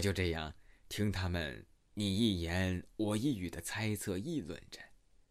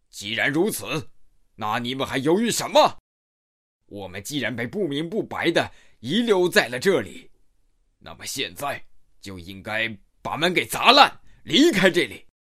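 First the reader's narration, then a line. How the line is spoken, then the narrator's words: Bearded man roaring. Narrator (Chinese): 络腮胡子大汉一声猛吼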